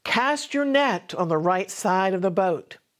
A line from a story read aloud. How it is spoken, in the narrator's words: The resurrected Jesus stood on the shore and called out to them